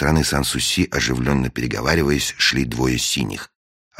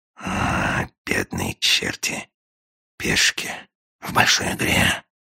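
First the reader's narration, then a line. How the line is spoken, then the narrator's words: Sighing whisper. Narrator (Russian): со вздохом прошептал агент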